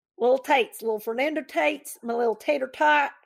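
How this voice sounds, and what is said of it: Put-on Southern accent. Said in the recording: “say it with a southern accent ... It's really fun to talk in that accent.”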